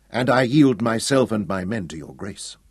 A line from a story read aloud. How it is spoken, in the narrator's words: said smoothly